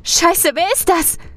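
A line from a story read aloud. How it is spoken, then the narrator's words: Frightened shriek. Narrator (German): kreischt Sally ängstlich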